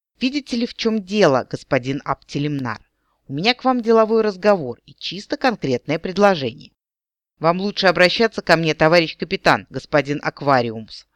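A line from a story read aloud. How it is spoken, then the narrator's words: Stern warning. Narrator (Russian): строго предупредил Эрин Рандир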